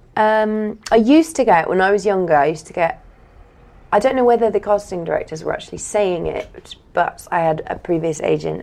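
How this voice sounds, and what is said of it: Posh RP English accent. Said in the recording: “posh ... She's a bit posh ... I have RP accent”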